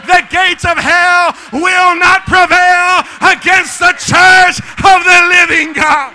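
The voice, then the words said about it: Excited shouting preacher. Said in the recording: “you get excited. ¿Por qué gritas tanto? ... You're shouting”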